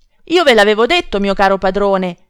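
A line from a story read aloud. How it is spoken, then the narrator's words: Distressed shout. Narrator (Italian): grida afflitto Cacambo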